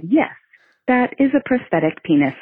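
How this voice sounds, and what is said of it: Very calm voice. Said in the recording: “in a very calm voice”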